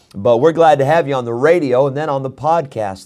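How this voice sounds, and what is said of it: Voice sounds unwell, partly recovered. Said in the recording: “Sorry for the way my voice sounds today. It actually sounds a little bit better now than it did last night, and a little bit better now than it did this morning, so hopefully it's coming back.”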